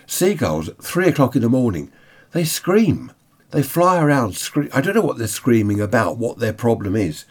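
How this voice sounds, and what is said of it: Congested voice from a cold. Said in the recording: “I've got a bit of a cold still from Butlins... Just getting over this cold now. But still a bit bunged up.”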